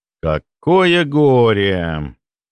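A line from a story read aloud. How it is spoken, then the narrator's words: Drawn-out drawl. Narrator (Russian): протянул я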